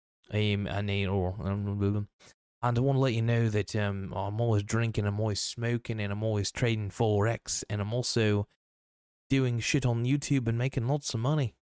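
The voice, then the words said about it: Poor put-on British accent. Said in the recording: “completely legitimate British accent ... that's a poor British accent”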